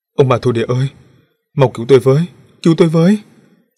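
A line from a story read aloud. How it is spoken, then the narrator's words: Desperate wailing scream. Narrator (Vietnamese): Tam Lại Tử, tiếng hét thảm thiết của hắn cũng vô vọng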